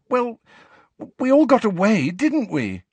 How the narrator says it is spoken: said Cho pleadingly

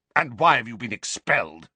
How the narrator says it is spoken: glared at him, then spat out

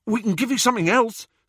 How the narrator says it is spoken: said Ron eagerly

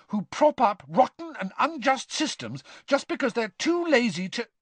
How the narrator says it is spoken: Hermione began hotly

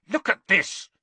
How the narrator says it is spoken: Harry snarled

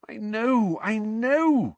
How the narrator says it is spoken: moaned Mrs

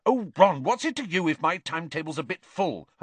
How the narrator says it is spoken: Hermione snapped

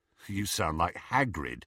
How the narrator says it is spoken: said Ron

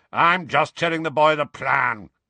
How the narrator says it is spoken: growled Moody

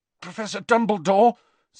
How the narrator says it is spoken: said Harry, his voice strained

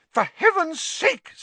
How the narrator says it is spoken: said Madame Pumphrey hysterically

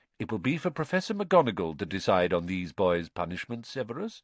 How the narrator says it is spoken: said Dumbledore calmly

